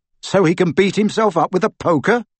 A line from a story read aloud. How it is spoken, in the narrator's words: snorted Harry